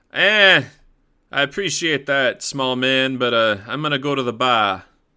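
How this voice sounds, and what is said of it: Weak put-on New England accent. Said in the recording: “my attempt at being like a New England accent. I just can't do it very well.”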